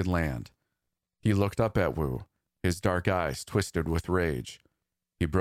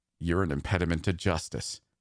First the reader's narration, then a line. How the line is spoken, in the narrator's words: he said through gritted teeth